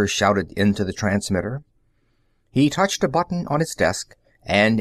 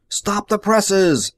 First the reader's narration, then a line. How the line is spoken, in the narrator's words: he yelled into the speaking tube